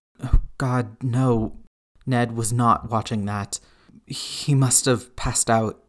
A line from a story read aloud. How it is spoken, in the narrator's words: Ned said shakily